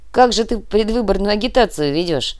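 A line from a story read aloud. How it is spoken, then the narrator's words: Laughing. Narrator (Russian): рассмеялся Артем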